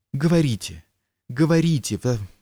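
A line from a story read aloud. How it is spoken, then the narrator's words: Flustered girl exclaiming. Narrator (Russian): воскликнула девушка, снова вся вспыхнув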